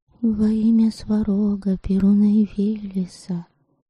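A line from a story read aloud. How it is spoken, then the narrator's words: Barely voiced mutter. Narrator (Russian): Одними губами, чтобы никто не слышал, бормотала она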